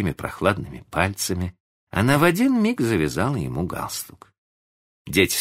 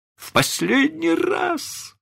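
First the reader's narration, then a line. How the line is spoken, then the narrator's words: Moaning. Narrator (Russian): стонал мистер Дарлинг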